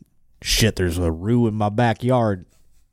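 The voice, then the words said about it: Put-on Southern US accent. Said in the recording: “I sounded like a fucking southern guy there”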